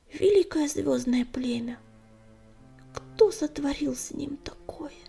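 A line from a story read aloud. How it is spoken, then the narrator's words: Whispered. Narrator (Russian): прошептал Огнегриф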